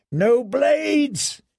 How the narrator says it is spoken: he screamed

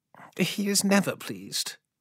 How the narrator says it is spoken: muttered Ilya

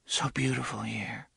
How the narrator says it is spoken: she murmured

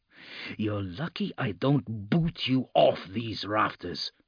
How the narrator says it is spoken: Lucas snarled, but softly

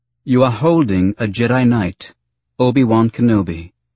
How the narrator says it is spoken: said calmly, using the tone that had gotten her through so many senatorial negotiations

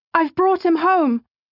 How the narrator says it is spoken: she cried

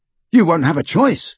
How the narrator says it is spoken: said Ron fiercely

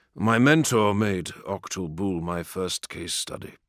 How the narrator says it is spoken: the Carrion said

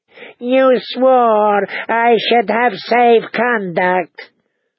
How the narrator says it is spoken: the Yunkish envoy wailed

